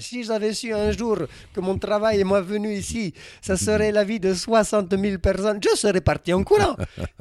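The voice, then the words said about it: Imitated accent with rolled sounds. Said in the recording (French): “il a un accent qui roule derrière comme ça ... il est slovène d'origine argentine”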